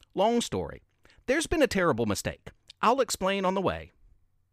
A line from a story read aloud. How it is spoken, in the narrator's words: Jingle quickly replied